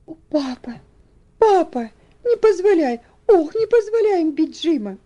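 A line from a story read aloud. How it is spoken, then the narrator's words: Agitated cry, nearly sobbing. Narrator (Russian): Она бледная и взволнованная, воскликнула, едва сдерживая рыдание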